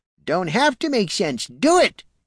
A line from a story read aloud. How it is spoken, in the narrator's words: he cackled